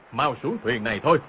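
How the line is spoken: Panicked shout. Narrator (Vietnamese): Đang hoảng hốt không biết làm sao, vội quát lên

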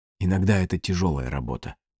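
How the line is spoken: Quiet, after a pause. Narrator (Russian): тихо сказала она наконец

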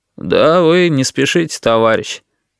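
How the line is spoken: Bored voice. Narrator (Russian): скучным голосом сказал Витька

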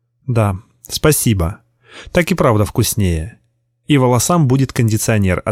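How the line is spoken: Plain. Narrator (Russian): ответила она

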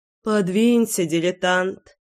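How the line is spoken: Snort. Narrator (Russian): фыркнула я

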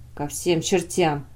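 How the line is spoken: Gloomy. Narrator (Russian): сказал Блейн мрачно

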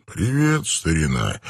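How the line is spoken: Soft. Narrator (Russian): мягко произнес Роберт Армстронг

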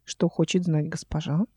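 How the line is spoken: Polite quiet question. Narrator (Russian): спросил вежливо и тихо

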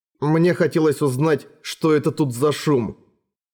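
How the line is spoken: Plain. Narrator (Russian): сказал Эрагон

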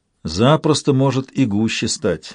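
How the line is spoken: Sighing. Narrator (Russian): вздохнул Брэшен

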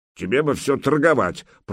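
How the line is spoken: Reproachful grumble. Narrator (Russian): проворчал Добрыня укоризненно

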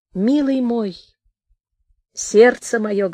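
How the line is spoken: Plain woman's voice. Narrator (Russian): говорит женщина

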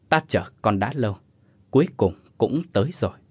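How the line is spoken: Old monk's soft voice. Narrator (Vietnamese): Vị sư giả khẽ lên tiếng

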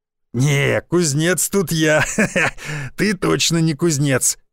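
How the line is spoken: Man laughing loudly. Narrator (Russian): расхохотался мужик

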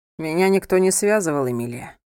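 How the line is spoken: Calm. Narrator (Russian): спокойно ответил он

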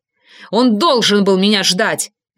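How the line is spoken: Barked. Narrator (Russian): рявкнул я

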